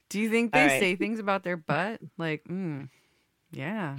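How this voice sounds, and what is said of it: Usual voice. Nothing is said of it.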